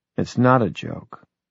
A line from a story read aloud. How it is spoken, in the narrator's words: I muttered